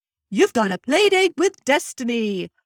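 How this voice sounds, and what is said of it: Character voice with a poor put-on accent. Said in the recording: “I can't do accents. I have tried terrible with accents. ... pretending to be Lotso”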